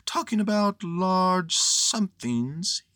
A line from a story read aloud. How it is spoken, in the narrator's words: he went on dreamily